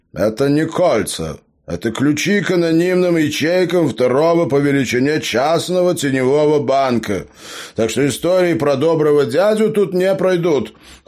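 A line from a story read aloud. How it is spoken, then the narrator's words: Cold reply. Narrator (Russian): холодно ответил гном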